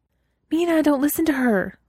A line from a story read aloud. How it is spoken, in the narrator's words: Weiwei said urgently